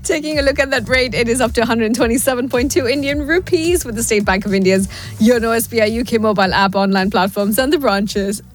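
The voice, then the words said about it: Strained, failing voice. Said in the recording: “now I'm losing my voice ... Boss, I'm calling in sick.”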